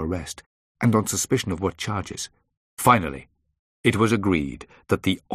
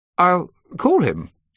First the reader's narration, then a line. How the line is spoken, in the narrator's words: said nervously, clearly slightly troubled by the mass of people crowding into her reception area